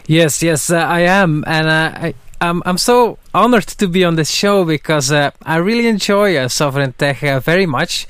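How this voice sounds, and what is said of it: Belgian accent. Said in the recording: “that's a Belgian accent you hear. is from Belgium”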